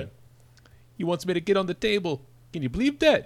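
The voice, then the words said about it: John Kennedy impression. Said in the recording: “How about John Kennedy? ... That's pretty good. ... Kennedy. That sounded like Kennedy.”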